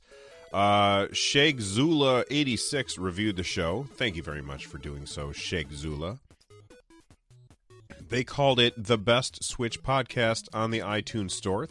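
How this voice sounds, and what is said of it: Rough, hoarse sick voice. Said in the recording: “my voice is a little rough. I'm sick, and so that's why it's not sounding as good as it usually does.”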